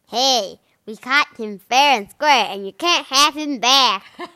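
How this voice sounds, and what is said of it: Upset baby fish character voice. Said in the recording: “He's an upset fish accent”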